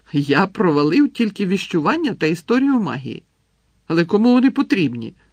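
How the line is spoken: Cheerful announcement. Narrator (Ukrainian): радісно повідомив він Гаррі

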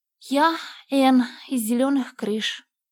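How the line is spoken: Timid little girl. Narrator (Russian): сказала маленькая посетительница робко

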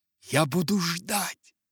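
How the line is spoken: Passionate breath into phone. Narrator (Russian): Страстно выдохнула она в трубку

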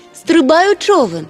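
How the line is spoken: Shouted. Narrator (Ukrainian): крикнула тюльпанна морському тролеві

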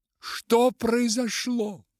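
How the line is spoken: Woman shouting. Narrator (Russian): закричала, увидев его, Розмари

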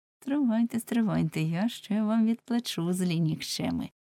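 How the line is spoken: Secret mutter through teeth. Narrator (Ukrainian): крізь зуби нишком бурмотів

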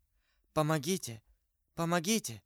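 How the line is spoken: Whispering. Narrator (Russian): шептала Бонасье

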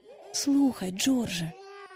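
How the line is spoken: Whisper. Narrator (Ukrainian): пошепки мовила місіс Дарлінг

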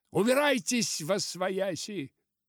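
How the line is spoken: Shouting like rally worker. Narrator (Russian): крикнул в ответ мистер Верлок, тоже голосом рабочего на сходке

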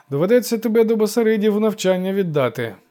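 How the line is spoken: Devil's sigh. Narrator (Ukrainian): зітхнув лукавий

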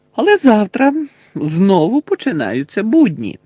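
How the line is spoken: Cheerful continuing. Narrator (Ukrainian): весело провадив Фред

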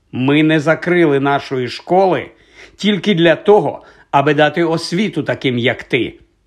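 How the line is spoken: Stern explanation. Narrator (Ukrainian): суворо пояснила вона

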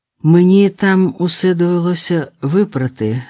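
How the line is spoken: Plain. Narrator (Ukrainian): сказала Олена

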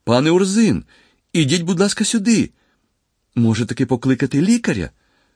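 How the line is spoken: Girl crying out. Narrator (Ukrainian): дівчина скрикнула

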